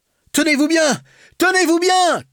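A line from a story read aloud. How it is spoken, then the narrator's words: Shouted. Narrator (French): cria Brillant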